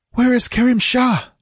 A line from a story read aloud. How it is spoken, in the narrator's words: she gasped, panting after her long run